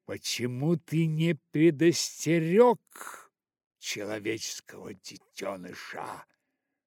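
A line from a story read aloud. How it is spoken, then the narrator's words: Thundering rebuke. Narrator (Russian): прогремела она бедному Балу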